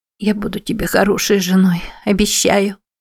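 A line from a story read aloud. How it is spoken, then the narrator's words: Whimper. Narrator (Russian): проскулила Мэтти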